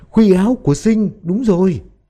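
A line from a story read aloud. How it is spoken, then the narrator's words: Shrieking in unison. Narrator (Vietnamese): Ba người, bà Án, Tường Vân và cô giáo đồng thanh rú lên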